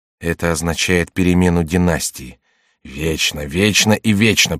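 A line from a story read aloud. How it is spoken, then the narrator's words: Grumbling. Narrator (Russian): проворчала Екатерина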